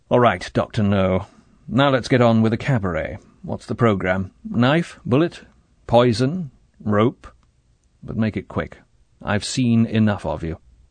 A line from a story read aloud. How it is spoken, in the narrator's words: He said harshly